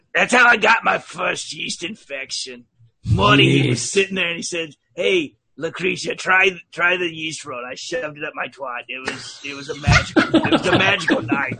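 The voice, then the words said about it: Put-on accent, character voice. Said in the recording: “As long as you do an accent, you can say whatever you want ... normal voice ... does not say stuff like that”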